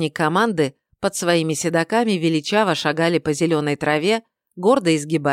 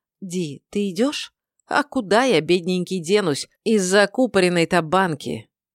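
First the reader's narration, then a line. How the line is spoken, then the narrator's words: Gentle question. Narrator (Russian): Тайма ... мягко поинтересовалась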